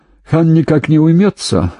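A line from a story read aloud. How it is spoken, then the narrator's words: Snorted. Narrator (Russian): хмыкнул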